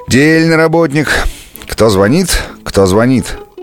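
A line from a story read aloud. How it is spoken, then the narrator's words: Rude question. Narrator (Russian): спросила грубо Таня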